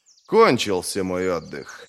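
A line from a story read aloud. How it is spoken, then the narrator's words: Sigh. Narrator (Russian): вздохнул он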